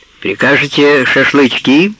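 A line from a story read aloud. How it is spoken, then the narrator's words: Loud question behind door. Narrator (Russian): громко спросили за дверью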